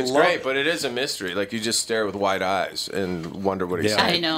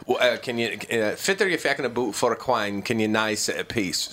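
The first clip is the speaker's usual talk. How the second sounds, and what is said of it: Thick Scottish accent. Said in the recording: “Is that actual Scots or is that just a really thick accent?”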